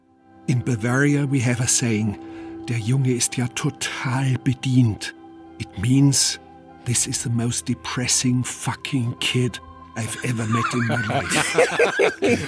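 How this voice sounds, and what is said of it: German accent. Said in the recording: “I love it in that accent. ... That's a very famous German person right there.”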